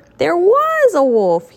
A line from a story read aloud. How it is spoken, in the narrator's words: cried